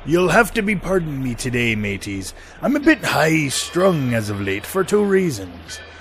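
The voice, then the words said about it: Pirate voice. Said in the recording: “Talk Like a Pirate Day”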